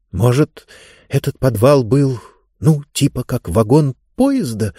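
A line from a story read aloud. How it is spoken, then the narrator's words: Bewildered whisper. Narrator (Russian): растерянно прошептала Диба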